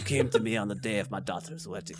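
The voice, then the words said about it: Attempted New York mobster voice. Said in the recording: “This was supposed to be a New York mobster. It it went sideways.”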